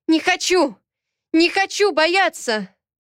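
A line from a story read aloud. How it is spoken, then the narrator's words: Desperate shout. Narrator (Russian): Крикнула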